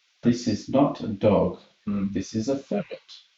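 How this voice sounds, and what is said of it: Bad put-on accent. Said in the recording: “It does sound a bit Guy Ritchie-ish ... It's a bad accent, though.”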